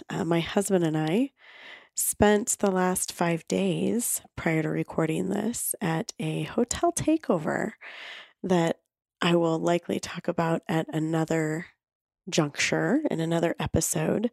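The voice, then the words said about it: Raspy voice. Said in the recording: “my voice is a little bit raspy”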